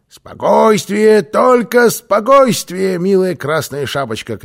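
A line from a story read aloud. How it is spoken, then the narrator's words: Shout. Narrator (Russian): кричал Карлсон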